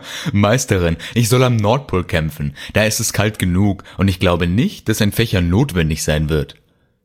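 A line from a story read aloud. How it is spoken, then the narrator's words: Laughing. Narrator (German): lachte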